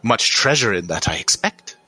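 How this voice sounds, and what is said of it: Put-on German accent, not convincing. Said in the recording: “I didn't do it justice right there ... he is Zemnian ... So that was supposed to be a German accent.”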